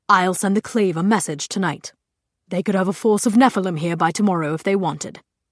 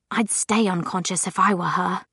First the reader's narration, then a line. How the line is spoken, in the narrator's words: Isabel muttered